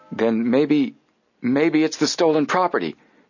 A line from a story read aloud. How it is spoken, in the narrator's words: Joe exclaimed